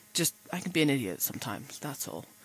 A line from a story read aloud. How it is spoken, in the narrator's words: Rodney muttered